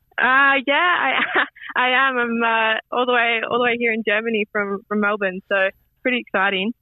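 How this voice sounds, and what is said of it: Australian accent. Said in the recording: “I hear a familiar Australian accent.”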